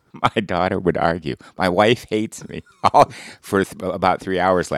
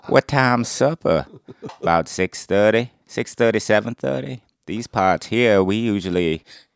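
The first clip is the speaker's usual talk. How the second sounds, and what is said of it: Imitates another person's Texas-accented voice. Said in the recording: “I constantly am working on my impersonations ... I did Matthew McConaughey ... It's not a great Matthew McConaughey, but I'm honing it ... Matthew McConaughey is a Texas accent”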